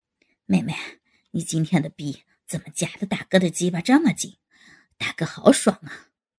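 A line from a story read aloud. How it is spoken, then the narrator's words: Panting. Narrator (Chinese): 吴刚也边抽插边气喘道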